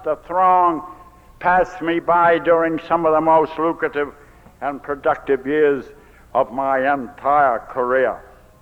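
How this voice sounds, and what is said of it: Down East Maine Yankee accent. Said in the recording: “I'm a down east Yankee drunk, as you can tell. This accent isn't Texas accent”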